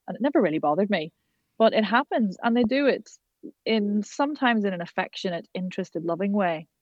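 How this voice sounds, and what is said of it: Irish accent. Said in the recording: “when I first moved from Ireland to live in Manchester ... taking the mickey out of my accent”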